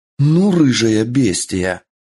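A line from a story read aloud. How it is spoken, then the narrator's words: Growl. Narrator (Russian): прорычала Мичия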